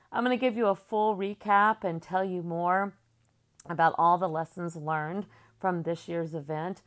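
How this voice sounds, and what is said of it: Slightly tired voice. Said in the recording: “my voice sounds a little tired today”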